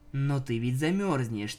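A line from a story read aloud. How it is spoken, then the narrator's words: Quiet. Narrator (Russian): тихо сказала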